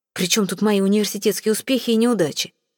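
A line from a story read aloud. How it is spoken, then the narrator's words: Irritated question. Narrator (Russian): раздраженно спросил Мишель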